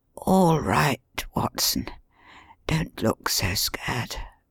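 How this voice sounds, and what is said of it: Weak, muttered voice. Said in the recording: “he muttered in a very weak voice”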